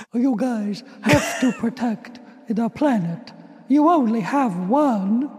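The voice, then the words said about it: Good Winnie the Pooh voice. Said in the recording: “you have a really good Winnie the Pooh impression”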